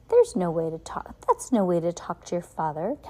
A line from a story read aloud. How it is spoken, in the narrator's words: Captain Sham said calmly